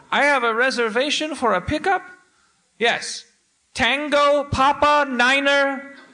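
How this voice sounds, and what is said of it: Imitated slight unplaceable accent. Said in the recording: “He had a slight accent of indeterminate origin that I'm trying to do my best impression of.”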